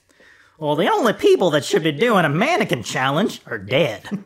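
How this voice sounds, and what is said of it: Put-on hick accent. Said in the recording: “A hick? ... That's, yeah.”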